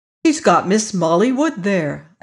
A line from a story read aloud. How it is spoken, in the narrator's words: exclaimed